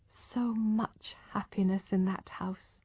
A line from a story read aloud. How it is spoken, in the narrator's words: whispered